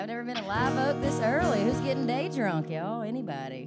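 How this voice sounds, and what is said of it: Southern Alabama accent. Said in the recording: “I'm from Alabama, so we sound about the same.”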